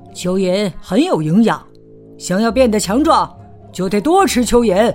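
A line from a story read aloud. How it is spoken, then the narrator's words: Loud, fatherly. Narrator (Chinese): 公鸡爸爸也过来高声说道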